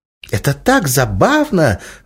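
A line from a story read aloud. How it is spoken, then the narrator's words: Excited exclamation. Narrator (Russian): воскликнула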